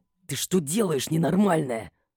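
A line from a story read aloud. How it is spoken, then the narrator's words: Quiet indignant hiss. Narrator (Russian): Возмущенно зашипел он, впрочем, продолжая вести себя тихо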